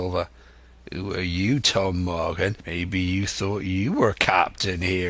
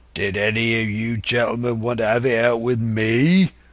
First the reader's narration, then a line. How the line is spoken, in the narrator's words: roared Silver